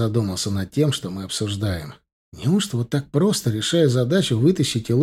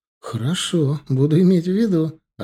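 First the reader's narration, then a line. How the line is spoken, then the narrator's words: Laughing. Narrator (Russian): рассмеялся Элор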